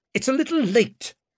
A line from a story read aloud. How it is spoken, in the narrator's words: he barked at her